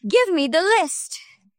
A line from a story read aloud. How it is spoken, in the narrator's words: yelled Teacher Sumi